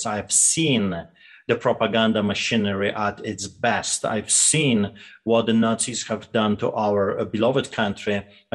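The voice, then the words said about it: Noticeable Eastern European accent. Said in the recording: “as you can tell very quickly ... do believe my accent. I grew up behind the Iron Curtain”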